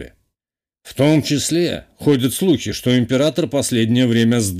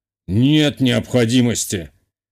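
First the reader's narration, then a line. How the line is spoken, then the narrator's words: Snorting. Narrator (Russian): хмыкнул глава теневого сообщества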